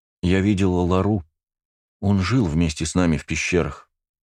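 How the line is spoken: Sad voice. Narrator (Russian): грустным голосом поделилась Ника

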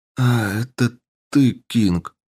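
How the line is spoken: Weary. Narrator (Russian): устало произнес он

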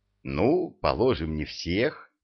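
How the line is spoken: Mumbling. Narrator (Russian): пробормотал Молотков

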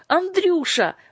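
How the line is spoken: Exclaimed. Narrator (Russian): воскликнула Юлька

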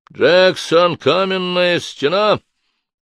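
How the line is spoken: Barked into microphone. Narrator (Russian): рявкнул он в микрофон

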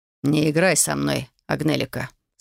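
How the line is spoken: Man speaking dryly. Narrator (Russian): сухо произнес мужчина

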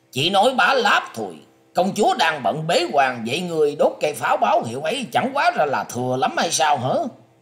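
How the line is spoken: Shouting. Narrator (Vietnamese): Đoan Mộc Hoa quát rằng

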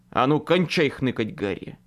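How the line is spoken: Loud firm bark. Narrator (Russian): Рявкнул я сам себе громким, по возможности твердым голосом

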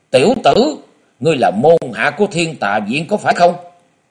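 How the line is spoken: Alarmed loud shout. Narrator (Vietnamese): Vô nan tiên sinh mặt của ông liền biến sắc quát lớn

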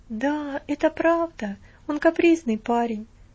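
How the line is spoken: Sigh. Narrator (Russian): вздохнула Марта

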